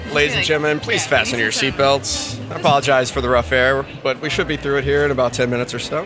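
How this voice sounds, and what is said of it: Monotone robotic airline pilot voice. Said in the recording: “monotone and robotic ... He's looking for an impersonation ... it's like robotic”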